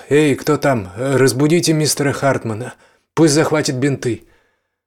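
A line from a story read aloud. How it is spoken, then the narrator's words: Shouting. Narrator (Russian): Джеймс крикнул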